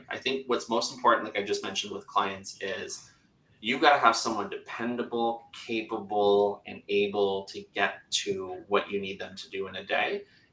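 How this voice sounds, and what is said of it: Canadian English accent. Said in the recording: “They'll have an accent like me. I'm Canadian, right? You guys aren't making fun of me for how I'm saying process”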